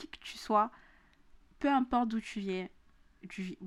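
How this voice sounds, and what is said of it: Southern French accent. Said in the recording (French): “pourquoi mon accent du sud est revenu”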